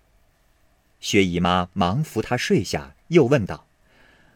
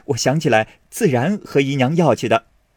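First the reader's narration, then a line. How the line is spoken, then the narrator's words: Laughing. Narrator (Chinese): 宝玉笑道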